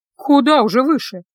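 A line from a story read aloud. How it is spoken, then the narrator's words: Sighing. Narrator (Russian): вздохнула она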